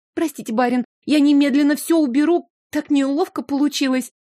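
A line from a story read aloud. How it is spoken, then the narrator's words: Frightened squeaky apology. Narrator (Russian): пропищала в оправдании испуганным голосом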